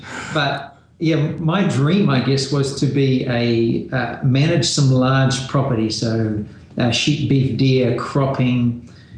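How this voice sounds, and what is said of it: New Zealand accent. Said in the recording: “from New Zealand, the accent”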